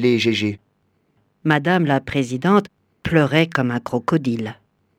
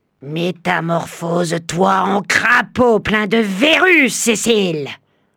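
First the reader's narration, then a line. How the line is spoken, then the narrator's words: Roaring. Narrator (French): rugit-elle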